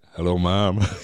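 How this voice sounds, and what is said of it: Deep southern US sexy voice. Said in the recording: “he does in his deep south sexy voice”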